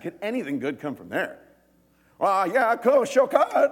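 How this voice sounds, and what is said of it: Put-on rustic Galilean accent. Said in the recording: “You got that Galilean accent... All right, that's my accent.”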